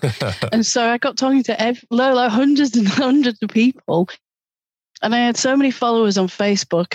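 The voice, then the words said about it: Noticeable foreign accent. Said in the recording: “because of my accent, you see, right. Everybody would stop and go, oh, my God, where are you from?”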